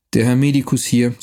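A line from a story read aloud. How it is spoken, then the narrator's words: Plain. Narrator (German): sagte er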